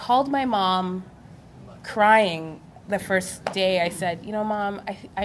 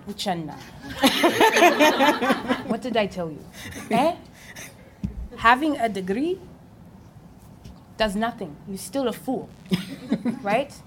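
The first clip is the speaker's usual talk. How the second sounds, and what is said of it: Put-on accent imitating her mother. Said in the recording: “let me do the accent.”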